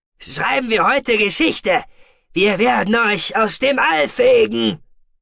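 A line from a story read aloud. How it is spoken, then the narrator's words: Roaring at someone. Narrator (German): brüllte der Maskant den unsterblichen Arkoniden gerade an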